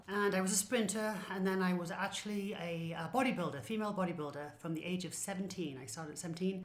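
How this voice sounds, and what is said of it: English accent. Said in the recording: “her accent is so fun ... you talk very differently from me ... So I am English, you can tell.”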